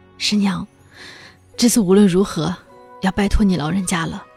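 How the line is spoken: Hoarse. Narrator (Chinese): 郭枕嗓子沙哑，对我说道

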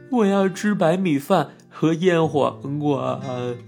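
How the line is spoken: Crying father. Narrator (Chinese): 爸爸一边哭一边回答

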